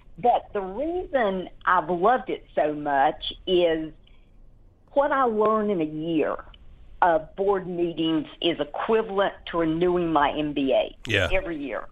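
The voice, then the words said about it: Small-town North Carolina accent. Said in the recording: “this accent is from a really tiny little town in Marshall, North Carolina”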